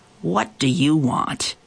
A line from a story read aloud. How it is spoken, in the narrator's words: he growled